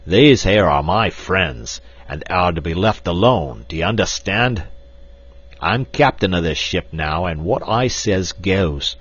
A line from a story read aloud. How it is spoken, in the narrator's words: With a loud roar, Black Michael attracted the attention of the others, and pointing to Lord and Lady Greystoke, cried